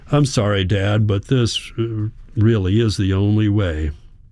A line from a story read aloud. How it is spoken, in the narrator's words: he says